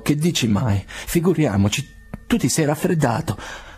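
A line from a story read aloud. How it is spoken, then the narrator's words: Stammering. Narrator (Italian): balbettò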